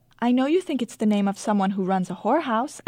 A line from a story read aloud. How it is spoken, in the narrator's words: I say cheerfully